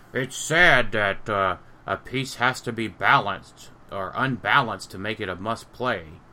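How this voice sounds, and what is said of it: Poor imitation of another person's voice. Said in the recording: “That is a piss poor, version of my voice... terrible Jason Alvey impression.”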